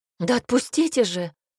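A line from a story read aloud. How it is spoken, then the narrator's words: Exclamation. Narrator (Russian): воскликнула незнакомка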